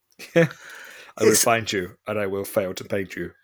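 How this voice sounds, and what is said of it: Imitates another person's voice. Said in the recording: “It's like the Liam Neeson in Taken.”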